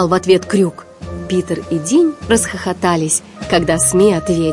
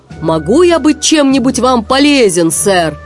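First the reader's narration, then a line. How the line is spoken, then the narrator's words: Shouted. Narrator (Russian): Сми закричал капитану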